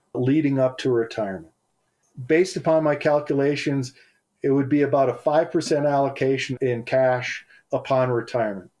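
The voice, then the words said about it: Minnesota or South Dakota accent. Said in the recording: “Minnesota accent or the? Minnesota yeah, I heard some... Or South Dakota”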